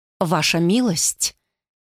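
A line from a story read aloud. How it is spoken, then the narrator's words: Lady speaking quietly. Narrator (Russian): тихо заговорила дама Брангайн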